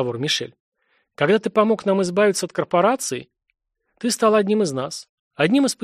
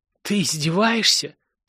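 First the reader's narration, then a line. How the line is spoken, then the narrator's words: Howling moan. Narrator (Russian): то ли провыл, то ли простонал разведчик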